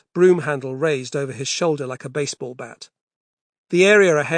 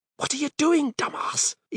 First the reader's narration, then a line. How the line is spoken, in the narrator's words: Eve hissed